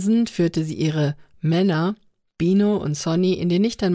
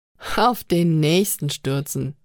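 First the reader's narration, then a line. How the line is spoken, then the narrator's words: Repeating with suppressed laugh. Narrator (German): wiederholte Limelien mit einem verhohlenen Lachen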